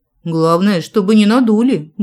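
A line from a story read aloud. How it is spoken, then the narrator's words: Grumbling mutter. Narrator (Russian): буркнула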